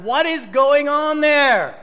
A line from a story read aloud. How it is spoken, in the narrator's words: Alarmed, the boss nearly shouted